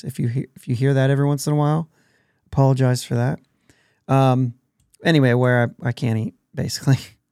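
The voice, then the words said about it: Hoarse, failing voice. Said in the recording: “I'm also losing my voice.”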